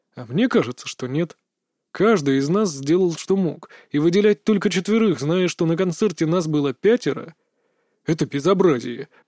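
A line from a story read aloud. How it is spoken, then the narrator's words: Gruff mutter. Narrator (Russian): буркнул Терри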